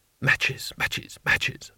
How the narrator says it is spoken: madly to himself under his breath

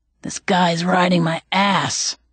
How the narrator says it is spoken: Clown Mask muttered

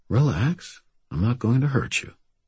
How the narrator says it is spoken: I said, keeping my voice gentle

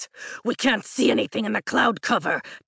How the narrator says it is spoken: Taren growls

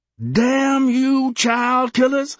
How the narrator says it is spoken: she cried

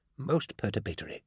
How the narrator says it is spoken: I heard him murmur

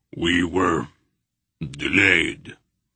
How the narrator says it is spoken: Beric grunted

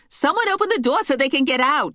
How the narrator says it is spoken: yelled

